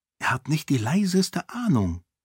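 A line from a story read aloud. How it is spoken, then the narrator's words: Whisper. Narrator (German): flüsterte Sarene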